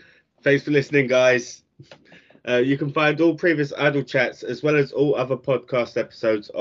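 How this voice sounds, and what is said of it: Usual voice. Nothing is said of it.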